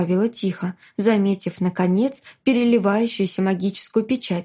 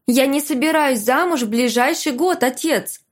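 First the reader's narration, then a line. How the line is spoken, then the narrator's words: Shouted reply. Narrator (Russian): крикнула я в ответ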